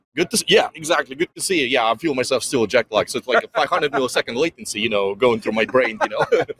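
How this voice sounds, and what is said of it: Russian accent. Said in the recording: “dude's got a Russian accent”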